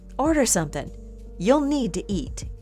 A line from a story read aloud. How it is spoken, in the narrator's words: Katie said calmly, though he picked up on something disturbing in her voice